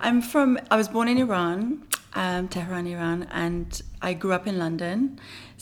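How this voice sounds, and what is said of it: Noticeable foreign accent. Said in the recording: “you obviously have an accent”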